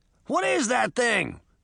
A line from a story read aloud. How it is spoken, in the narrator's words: Puck shouted